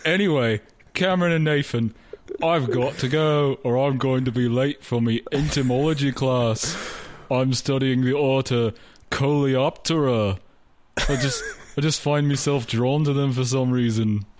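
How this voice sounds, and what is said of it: Put-on Liverpool accent impression. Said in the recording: “Your accent is seems to have changed quite a bit since we were back in Liverpool ... brush up my Liverpool ... Are you impersonating Ringo? ... I think you've offended Sir Paul.”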